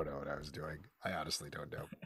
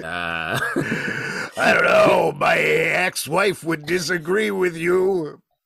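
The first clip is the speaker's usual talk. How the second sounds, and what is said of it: Big husband character voice. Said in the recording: “like a big husband voice energy... I was doing like big husband voice”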